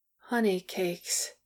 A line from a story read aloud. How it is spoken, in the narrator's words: Bomber mumbled, and dropped into a snore